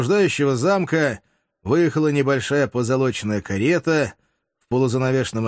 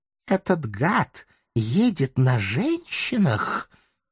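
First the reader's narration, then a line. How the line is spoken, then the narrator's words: Quiet hiss. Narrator (Russian): тихо прошипел племянник главнокомандующего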